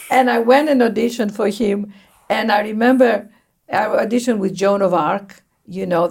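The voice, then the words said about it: Greek accent. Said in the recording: “He had a more Greek accent than me”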